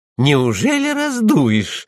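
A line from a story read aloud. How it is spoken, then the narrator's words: Joyful question. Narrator (Russian): радостно спросила Анна Лиса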